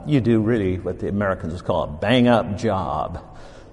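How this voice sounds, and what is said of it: Put-on American accent. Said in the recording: “My American accent really comes through strong there.”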